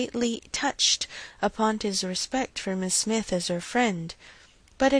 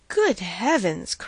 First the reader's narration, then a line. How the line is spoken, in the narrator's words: cried Mr